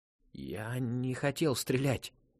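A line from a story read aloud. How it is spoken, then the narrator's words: Hoarse rasp. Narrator (Russian): прохрипел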